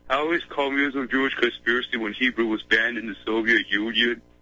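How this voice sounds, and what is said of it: Deep voice. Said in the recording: “my voice is a bit deep.”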